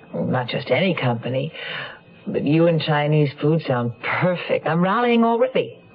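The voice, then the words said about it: Fuzzy, congested voice from a cold. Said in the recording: “You sound a little out of sorts... I have a cold... I thought you sounded a little fuzzy.”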